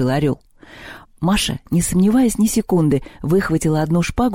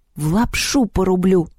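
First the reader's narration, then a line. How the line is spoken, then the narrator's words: Through gritted teeth. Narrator (Russian): сообщила она сквозь зубы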